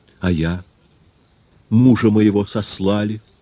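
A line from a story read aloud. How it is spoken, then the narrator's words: Calm, unpitying. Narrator (Russian): сказала женщина спокойно, без жалости к мужу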